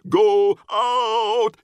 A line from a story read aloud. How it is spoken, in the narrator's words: She bellows